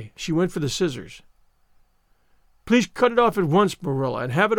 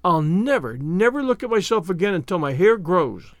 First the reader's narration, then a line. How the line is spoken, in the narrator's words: she exclaimed